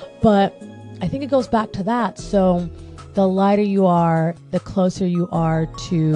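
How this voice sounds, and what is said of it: Usual voice. Nothing is said of it.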